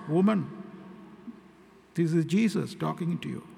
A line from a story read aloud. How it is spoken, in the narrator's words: He wanted to play a little game with her, he quietly said